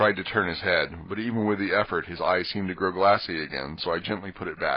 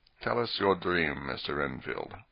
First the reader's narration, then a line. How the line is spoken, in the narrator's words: Van Helsing said in a quiet, grave voice